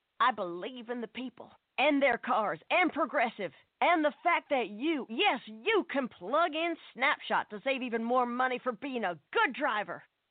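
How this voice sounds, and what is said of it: Imitates a politician's voice. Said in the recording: “my impression of a politician”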